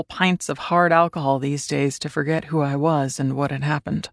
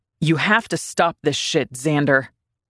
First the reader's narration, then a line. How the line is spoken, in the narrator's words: Julian said fiercely